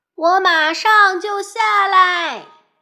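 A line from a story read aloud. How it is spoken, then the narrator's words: Shouting from upstairs. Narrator (Chinese): 迟到小姐在楼上大叫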